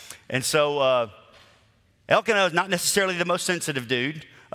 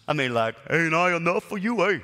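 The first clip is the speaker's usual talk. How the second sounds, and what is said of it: Put-on accent. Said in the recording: “I don't know why I use that accent, but that's kind of how I hear it.”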